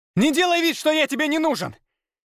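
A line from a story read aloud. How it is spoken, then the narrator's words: Heated angry shout. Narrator (Russian): в сердцах крикнул Ярослав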